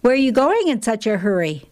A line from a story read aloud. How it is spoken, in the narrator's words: the officer asked